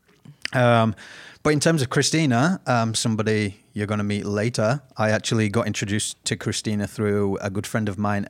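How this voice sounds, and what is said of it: British accent. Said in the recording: “I haven't got an Aussie accent because I'm originally from Britain”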